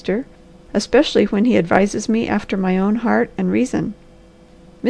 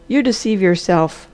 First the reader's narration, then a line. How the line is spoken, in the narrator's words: said the doctor flatly